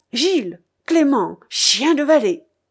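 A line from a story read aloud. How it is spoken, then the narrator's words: Furious exclamation. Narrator (French): s'écria le Normand furieux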